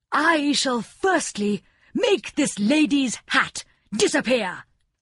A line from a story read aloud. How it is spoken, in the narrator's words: cried the king